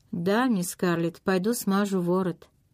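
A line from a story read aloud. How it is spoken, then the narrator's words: Crushed, dejected voice. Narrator (Russian): Убитым голосом он произнес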